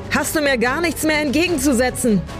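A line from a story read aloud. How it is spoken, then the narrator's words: Wild screaming into wind. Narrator (German): schrie sie mit wild durchdrehenden Augen in den Wind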